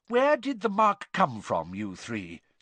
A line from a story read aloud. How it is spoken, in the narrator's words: said Mr